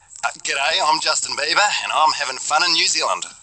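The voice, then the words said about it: Attempted New Zealand accent, fairly good. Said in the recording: “attempt a New Zealand accent ... That's pretty amazing ... That wasn't bad”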